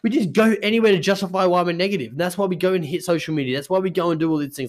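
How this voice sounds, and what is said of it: Very fast speech. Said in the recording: “I'm talking too fast.”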